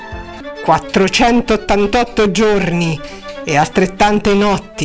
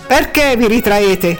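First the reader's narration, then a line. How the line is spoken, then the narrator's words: Shouting. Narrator (Italian): gridò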